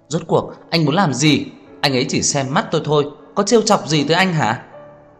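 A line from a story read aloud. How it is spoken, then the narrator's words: Frantic loud shout. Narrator (Vietnamese): Đường Khả Hinh thật muốn phát điên hét to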